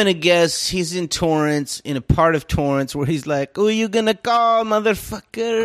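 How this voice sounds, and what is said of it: Usual voice. Nothing is said of it.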